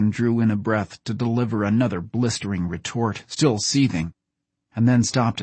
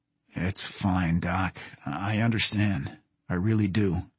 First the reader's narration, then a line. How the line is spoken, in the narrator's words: Jason said softly